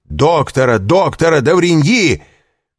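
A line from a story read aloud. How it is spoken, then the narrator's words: Shout. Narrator (Russian): крикнул Вильфор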